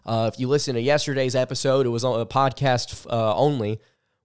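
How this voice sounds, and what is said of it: Hoarse, strained voice. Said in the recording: “my voice has not completely shut down yet ... I was coughing all the way through it. Laryn- laryngitis is not fun”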